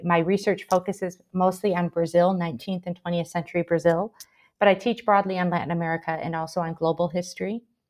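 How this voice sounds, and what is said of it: American Michigan accent. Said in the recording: “I'm originally from the United States. You can probably tell from my accent. I'm from Michigan originally”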